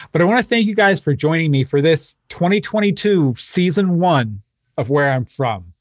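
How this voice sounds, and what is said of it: Emotional, slightly choked-up voice. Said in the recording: “I'm getting a little emotional here ... my heart's still a little broken”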